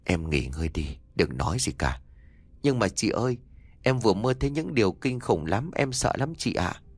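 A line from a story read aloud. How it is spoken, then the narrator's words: Trembling, then gentle. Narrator (Vietnamese): Nó run rẩy, chị nó dịu dàng bảo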